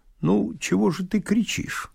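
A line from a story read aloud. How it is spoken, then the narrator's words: Calm. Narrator (Russian): спокойно сказал Овсянников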